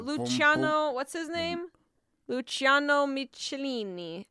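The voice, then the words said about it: Exaggerated mock Italian accent. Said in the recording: “I don't speak Italian, I'm sorry. ... you keep doing a very offensive voice.”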